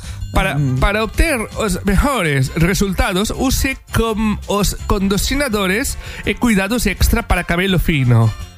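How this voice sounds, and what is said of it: Put-on foreign accent reading Spanish. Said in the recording (Catalan): “m'està sortint un accent que...”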